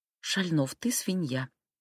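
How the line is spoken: Hurt mumble breaking into sobs. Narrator (Russian): пробормотала я и заревела, так мне было обидно

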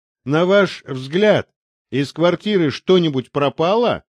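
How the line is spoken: Plain. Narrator (Russian): спросил Березин

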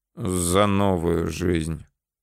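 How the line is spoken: Dejected agreement. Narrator (Russian): уныло поддержал

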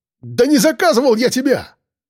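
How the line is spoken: Shouting. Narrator (Russian): выкрикнул он

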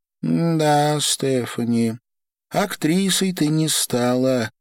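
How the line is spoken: Sad wry chuckle. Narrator (Russian): грустно усмехнулась Ольга

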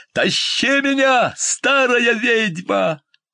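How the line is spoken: Shouted. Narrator (Russian): закричал

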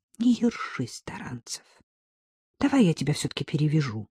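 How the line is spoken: Snort, then unexpectedly gentle. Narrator (Russian): Ольга фыркнула, сказала неожиданно мягко

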